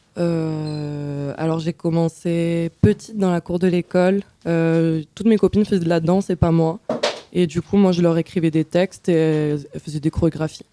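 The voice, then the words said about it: Speaks French with an accent. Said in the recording (French): “excusez-moi pour mon accent”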